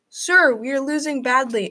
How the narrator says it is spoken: Adrian exclaimed

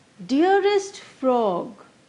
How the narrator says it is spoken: the nightingale breathed

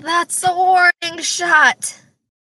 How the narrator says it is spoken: I, uh-uh, I yell

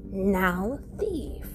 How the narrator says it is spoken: he said

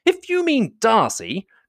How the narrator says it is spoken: cried her brother

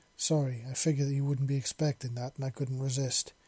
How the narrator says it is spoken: he said between chuckles

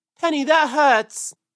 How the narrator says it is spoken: cried Peter, as the thorns pulled his fur

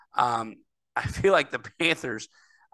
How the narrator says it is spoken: I laughed at my own joke

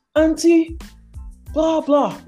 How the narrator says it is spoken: He screams

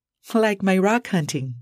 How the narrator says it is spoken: Grace chuckled

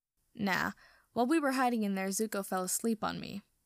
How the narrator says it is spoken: Sokka says, like he's having a laugh at Zuko's expense

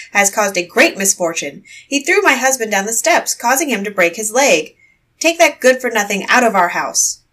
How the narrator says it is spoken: she shouted

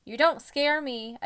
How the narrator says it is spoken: I shouted

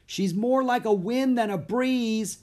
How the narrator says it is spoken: shouted Annie

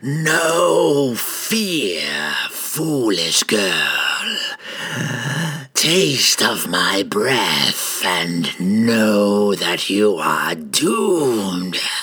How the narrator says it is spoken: It roared

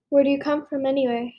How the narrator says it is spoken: Harry asked

